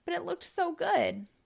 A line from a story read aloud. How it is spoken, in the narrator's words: Spud mumbled